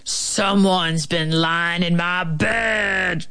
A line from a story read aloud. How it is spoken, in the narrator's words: growled the big bear in his great big gruesome voice